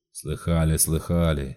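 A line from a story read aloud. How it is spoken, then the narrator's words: Grumbled. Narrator (Russian): буркнул Стопка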